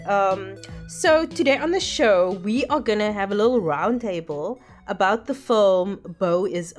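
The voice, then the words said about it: Scratchy, sick-sounding voice. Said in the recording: “my voice sounds a bit scratchy, I do have the flu”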